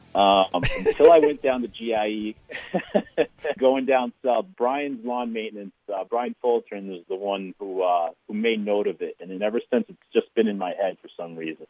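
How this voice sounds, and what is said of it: Heavy Boston accent. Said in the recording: “that heavy Boston accent from Massachusetts ... you definitely got that Boston accent going on”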